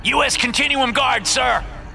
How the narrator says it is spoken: screams the soldier in front

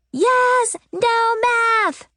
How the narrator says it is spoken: shouted Loretta

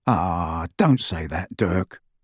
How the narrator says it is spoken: murmured Ted

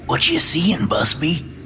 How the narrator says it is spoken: Nomitz whispers

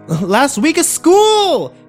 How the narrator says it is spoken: Kimber yelled at my retreating back

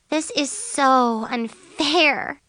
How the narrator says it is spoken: Chloe groaned

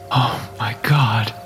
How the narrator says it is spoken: he whispered

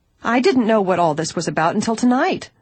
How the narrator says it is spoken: she cried angrily

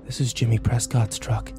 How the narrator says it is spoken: I breathed

